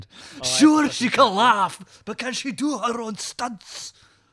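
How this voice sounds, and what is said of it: Put-on Scottish accent, animated. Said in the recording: “I can do a Scottish accent ... That's the best I can muster, and it's subpar ... quite animated”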